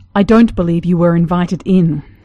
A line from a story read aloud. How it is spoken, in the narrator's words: Brendan growled